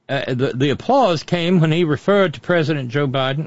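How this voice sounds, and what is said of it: Exaggerated cornpone Southern accent. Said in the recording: “why am I still doing the cornpone accent?”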